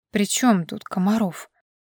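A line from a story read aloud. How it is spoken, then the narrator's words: Sleepy hoarse rasp. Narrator (Russian): прохрипела с просонья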